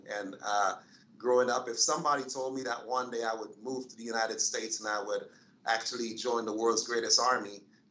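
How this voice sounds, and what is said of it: Caribbean accent. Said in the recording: “if you hear an accent in my voice, it's not just my D.C. accent ... I was born in the Caribbean”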